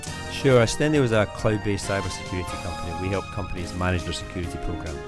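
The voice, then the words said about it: Scottish accent. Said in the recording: “where's the accent from? ... I'm originally from a town called Paisley in Scotland.”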